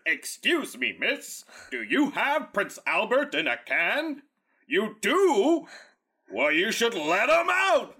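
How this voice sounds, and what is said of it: Impression of a creepy clown voice. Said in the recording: “That was a very good impression. ... that's Pennywise when they're adults.”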